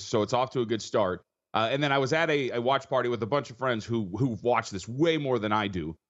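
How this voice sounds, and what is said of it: Husky, tired voice. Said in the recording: “I'm so tired and why my voice sounds so husky”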